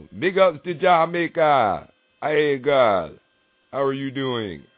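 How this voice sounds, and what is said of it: Poor fake Jamaican accent. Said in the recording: “I know that's a old fucked up accent. I ain't trying to be Jamaican. I'm just Jafaking.”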